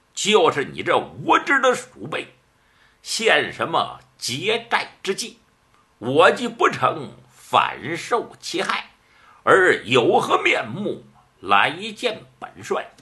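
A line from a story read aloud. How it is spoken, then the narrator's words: Through gritted teeth. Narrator (Chinese): 咬牙措齿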